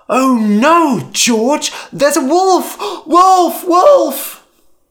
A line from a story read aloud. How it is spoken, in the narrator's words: Lyman cried